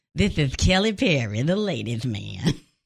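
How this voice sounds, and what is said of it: Imitates another person's voice. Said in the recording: “mine sounds more like Leon Phelps”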